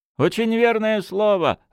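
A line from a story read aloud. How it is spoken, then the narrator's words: Laughing. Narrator (Russian): рассмеялся Шалва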